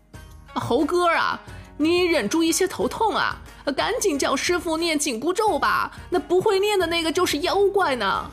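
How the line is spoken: Laughing. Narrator (Chinese): 猪八戒笑着说

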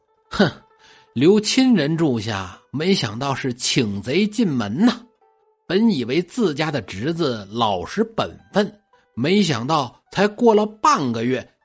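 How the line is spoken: Cold sneer, old woman. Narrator (Chinese): 老太太冷笑一声

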